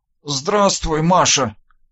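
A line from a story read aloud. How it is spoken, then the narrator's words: Half-strangled wheeze. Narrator (Russian): полузадушенно прохрипел я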